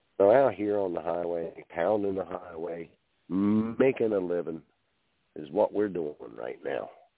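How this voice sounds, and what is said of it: Hoarse, froggy voice. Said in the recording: “my voice sounds a little bit froggy”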